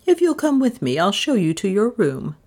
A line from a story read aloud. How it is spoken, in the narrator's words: she said a little stiffly